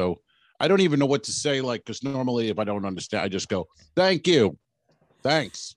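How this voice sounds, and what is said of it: Usual voice. Nothing is said of it.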